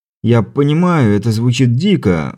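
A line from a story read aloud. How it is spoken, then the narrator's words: Sighing. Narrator (Russian): вздохнул изобретатель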